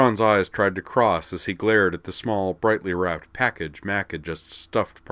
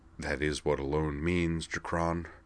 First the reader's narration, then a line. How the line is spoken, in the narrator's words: Beld muttered under his breath